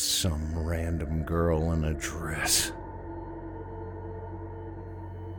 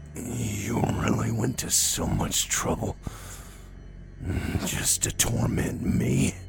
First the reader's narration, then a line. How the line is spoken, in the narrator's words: I asked hoarsely